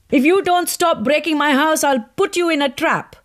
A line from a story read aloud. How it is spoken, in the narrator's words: shouted Fatima